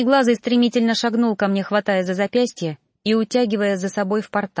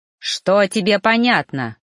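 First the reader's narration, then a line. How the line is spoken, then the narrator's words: Growled. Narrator (Russian): рыкнул мой наставник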